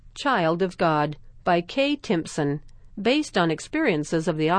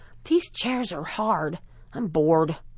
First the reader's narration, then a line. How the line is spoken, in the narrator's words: Frankie whispered to Clarissa